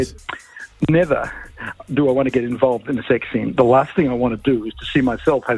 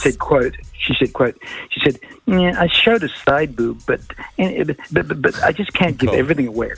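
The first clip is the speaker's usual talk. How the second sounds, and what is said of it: Imitates another person's voice. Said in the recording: “uncanny impression of Mila Kunis... in a Mila Kunis accent”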